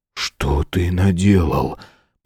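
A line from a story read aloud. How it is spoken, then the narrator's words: Whisper. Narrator (Russian): прошептал Патрик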